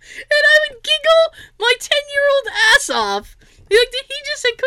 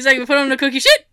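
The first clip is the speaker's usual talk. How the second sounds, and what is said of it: Imitates another person's accent. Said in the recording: “he had a little bit of an accent ... whenever he said cookie sheet, it sounded like he was saying cookie shit”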